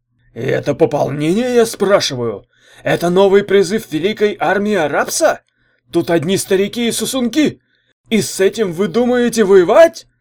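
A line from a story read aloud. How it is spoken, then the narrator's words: Shouting. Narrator (Russian): закричал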